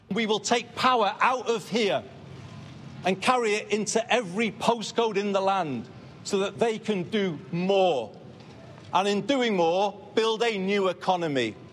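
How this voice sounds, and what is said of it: Northern English accent. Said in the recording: “the first British PM in 50 years to have a North of England accent”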